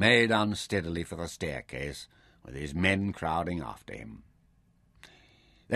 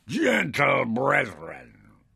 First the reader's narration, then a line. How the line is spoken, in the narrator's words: addressed his officers